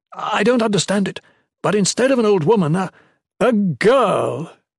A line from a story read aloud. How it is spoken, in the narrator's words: Caimus exclaimed